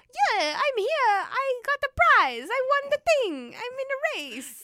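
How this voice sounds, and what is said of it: Put-on terrible Italian accent. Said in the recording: “with a terrible Italian accent as well ... I don't think you have to do the accent.”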